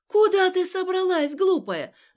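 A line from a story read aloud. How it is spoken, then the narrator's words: Old woman shouting. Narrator (Russian): закричала старушка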